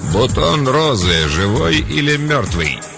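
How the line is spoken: Gritted, in a man's voice. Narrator (Russian): процедила мужским голосом

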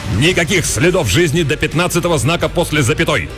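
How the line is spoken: Operator barking after cursing. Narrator (Russian): рявкнул выматерившись оператор Ползунов

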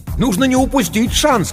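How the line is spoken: Shouting over the phone. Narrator (Russian): кричал в трубку незнакомый голос

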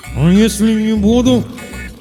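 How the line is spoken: Muffled, strained. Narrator (Russian): попытался выдавить я сквозь скотч

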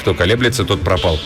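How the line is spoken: Deep sigh, then mutter. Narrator (Russian): глубоко вздохнул, пробормотал

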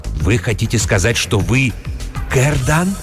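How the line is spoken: Whispered question. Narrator (Russian): шепотом спросил трактирщик

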